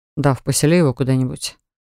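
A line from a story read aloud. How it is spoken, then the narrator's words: Weary request. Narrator (Russian): устало попросил Джастин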